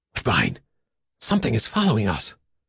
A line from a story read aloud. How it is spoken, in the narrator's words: in a hoarse voice, Don Stanley said